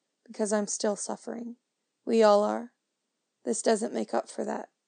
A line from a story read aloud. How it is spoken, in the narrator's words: it says quietly